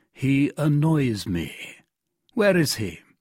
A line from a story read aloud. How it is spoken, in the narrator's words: added with a coldly menacing expression